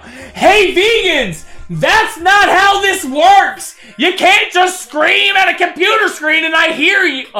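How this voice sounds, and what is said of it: Yelling. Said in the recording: “stop yelling”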